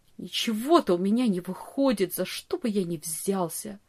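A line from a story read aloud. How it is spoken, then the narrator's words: Bitter mutter. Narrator (Russian): горько бормотал он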